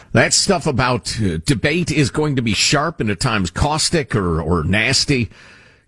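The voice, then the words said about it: Foreign accent. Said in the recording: “with his accent, where's he from? ... someone with an accent from another country”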